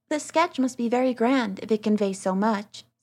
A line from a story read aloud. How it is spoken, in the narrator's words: said Dorothea